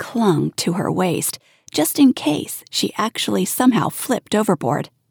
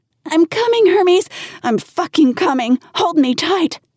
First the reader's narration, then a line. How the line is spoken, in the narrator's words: She stopped singing mid-song and yelled